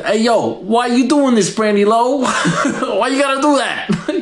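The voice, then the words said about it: Put-on Brooklyn accent. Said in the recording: “Would I give her a Brooklyn accent?”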